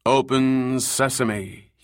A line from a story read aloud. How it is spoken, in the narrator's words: he intoned